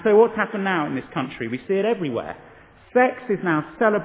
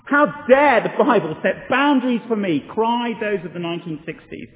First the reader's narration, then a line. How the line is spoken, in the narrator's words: yelled the revolutionaries of the 60s